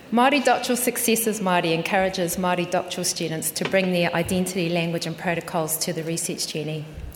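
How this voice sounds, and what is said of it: New Zealand accent. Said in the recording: “the New Zealand accent”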